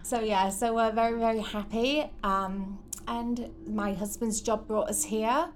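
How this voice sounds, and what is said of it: English accent. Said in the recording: “originally from a town called St Helens in the northeast of England ... So that explains your accent a little bit”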